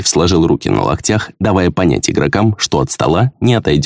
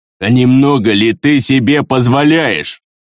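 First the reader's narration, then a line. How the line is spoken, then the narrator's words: Threatening growl. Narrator (Russian): угрожающе прорычал варвар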